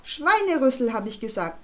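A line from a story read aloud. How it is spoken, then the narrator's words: Plain. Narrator (German): sagte Charlotte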